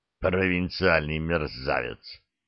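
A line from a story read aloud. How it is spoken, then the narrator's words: Mild, conciliatory grumble. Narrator (Russian): проворчал Разданов, но уже как-то беззлобно, примиряюще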